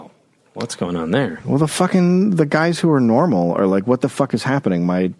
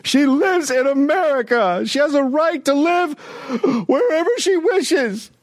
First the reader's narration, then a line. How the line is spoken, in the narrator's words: crying and yelling